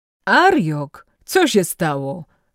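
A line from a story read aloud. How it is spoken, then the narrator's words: Called out, stout official. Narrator (Polish): zawołał gruby urzędnik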